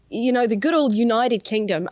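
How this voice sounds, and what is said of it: Put-on Australian-ish accent, nearly British. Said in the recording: “I don't know why I did that in an Australian accent rather than a British one ... It was close to Brit”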